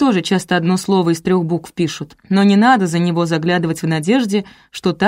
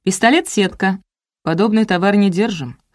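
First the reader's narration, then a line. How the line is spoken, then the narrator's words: Scholar's amused snort. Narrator (Russian): хмыкнул кандидат наук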